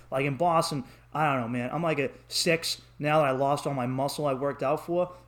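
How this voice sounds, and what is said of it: Boston accent. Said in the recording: “a guy like us who has an accent ... with my attitude and my accent”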